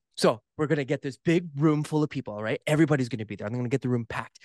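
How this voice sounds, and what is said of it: Impression of a pushy condo salesman. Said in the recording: “the guy trying to pump the market ... this is me kind of like, you know, doing a, you know, my impression”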